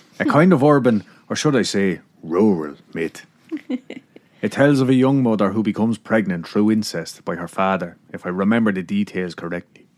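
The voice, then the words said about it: Put-on accent reading a character. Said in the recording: “I can't continue that accent. It's probably insulting somebody”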